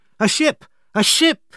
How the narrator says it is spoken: cried

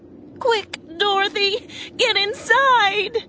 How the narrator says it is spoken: Aunt Em cried

